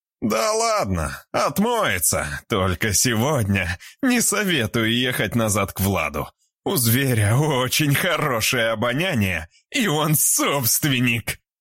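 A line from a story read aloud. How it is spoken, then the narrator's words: Laughing. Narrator (Russian): засмеялся Арсений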